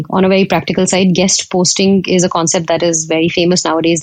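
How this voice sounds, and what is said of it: Indian accent. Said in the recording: “Pardon my Indian accent”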